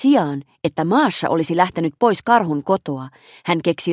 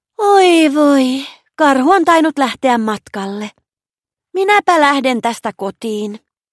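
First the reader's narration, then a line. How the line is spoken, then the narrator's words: Loud sigh. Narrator (Finnish): Maša huokaisi kovaan ääneen ja sanoi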